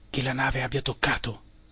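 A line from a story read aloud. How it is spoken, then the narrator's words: Hushed question. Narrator (Italian): chiesi sottovoce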